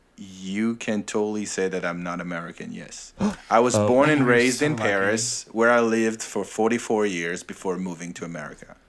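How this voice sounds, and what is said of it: French accent. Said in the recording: “are you of a French origin? Is that an accent I detect?”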